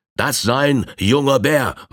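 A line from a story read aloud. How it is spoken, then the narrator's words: Man calling out. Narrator (German): rief der Indianer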